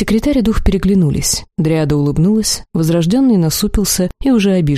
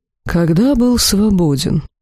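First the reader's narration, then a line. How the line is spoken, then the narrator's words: Sigh. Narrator (Russian): вздохнул Тарак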